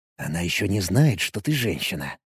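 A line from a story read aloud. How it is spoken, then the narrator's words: Whisper. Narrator (Russian): шепнул я Визе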